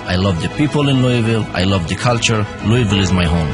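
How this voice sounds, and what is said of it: Foreign accent, not Southern. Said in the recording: “My accent may sound different ... He may not sound like a Southerner”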